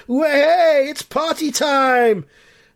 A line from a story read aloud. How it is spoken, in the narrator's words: the Bell Sister fans are shouting